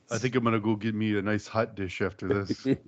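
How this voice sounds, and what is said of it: Randy the Ram character impression. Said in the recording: “best Randy the Ram impression”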